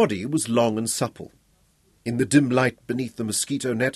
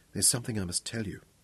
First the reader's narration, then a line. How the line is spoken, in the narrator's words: she whispered against his chest